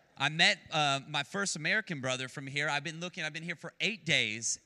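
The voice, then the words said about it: Speaks with a noticeable accent. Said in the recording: “How does my accent sound?”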